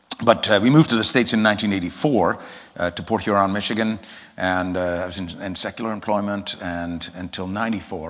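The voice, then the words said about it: Mixed English accent. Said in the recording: “why do you speak funny?... we detect a bit of an accent... I'm from England originally, although I never really lived in England long. That's why my accent is such a mess.”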